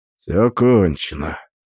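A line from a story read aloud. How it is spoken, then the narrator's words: Quiet but clear. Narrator (Russian): сказал негромко, но достаточно четко, чтобы все услышали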